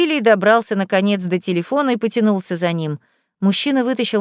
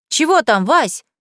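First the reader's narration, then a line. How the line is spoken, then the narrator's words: Shouting. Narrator (Russian): крикнула Леся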